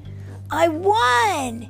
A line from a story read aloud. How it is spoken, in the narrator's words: yelled